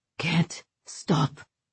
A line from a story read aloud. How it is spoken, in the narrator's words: he panted